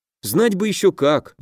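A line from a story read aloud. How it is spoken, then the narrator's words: Sighing. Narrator (Russian): вздохнул Дима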